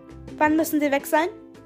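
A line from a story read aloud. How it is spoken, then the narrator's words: High squeaky thought-voice. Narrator (German): piepste ihre hohe Gedankenstimme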